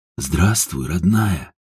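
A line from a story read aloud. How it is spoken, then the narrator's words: Breathed out. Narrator (Russian): выдохнул Ажуров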